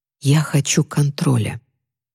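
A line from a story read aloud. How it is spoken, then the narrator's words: Whisper. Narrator (Russian): прошептала она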